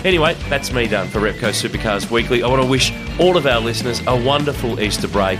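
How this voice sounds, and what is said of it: Hoarse, worn-out voice. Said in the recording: “as you can probably tell, my voice is absolutely gone”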